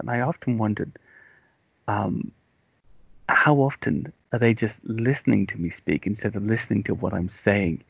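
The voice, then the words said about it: British English accent. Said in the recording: “English people do that sometimes, or British people do that... I think there's something about the accent... they're more used to the accent”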